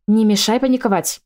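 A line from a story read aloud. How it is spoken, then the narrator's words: Sharp snapping bark. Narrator (Russian): рявкнула я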